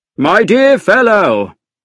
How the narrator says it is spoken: cried

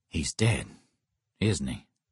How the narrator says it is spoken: Jake asked softly

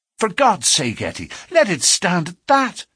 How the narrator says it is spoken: he cried

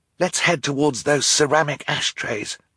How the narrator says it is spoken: Violet whispered

